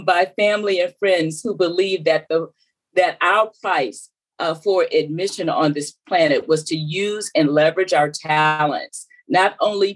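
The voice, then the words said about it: Southern US accent. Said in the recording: “I was raised in South Carolina, you could probably tell by the accent”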